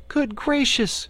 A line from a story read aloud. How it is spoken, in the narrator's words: cried Dorothy